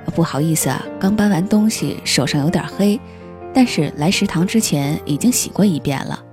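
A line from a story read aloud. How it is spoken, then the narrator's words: Sheepish, good-natured laugh. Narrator (Chinese): 他憨笑着说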